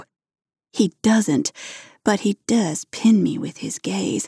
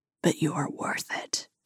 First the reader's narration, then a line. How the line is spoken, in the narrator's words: he whispers